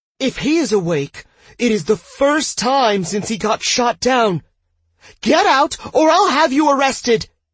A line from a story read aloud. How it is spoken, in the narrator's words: The doctor shouted in a tone that was bordering on shrill